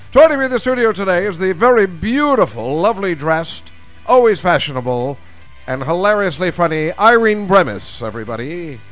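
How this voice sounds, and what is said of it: Old-fashioned radio announcer voice. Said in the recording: “I'll finish this voice in a second, but I'd like to open the show in the old-fashioned radio voice.”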